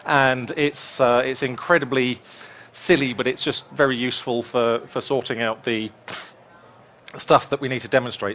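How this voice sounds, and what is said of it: Hoarse, croaky throat. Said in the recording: “I've got a frog in my throat.”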